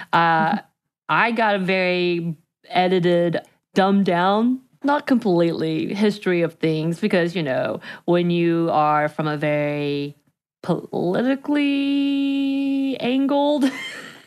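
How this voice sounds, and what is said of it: Southern US accent from Georgia. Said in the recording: “growing up in Georgia myself, as you can tell from my accent”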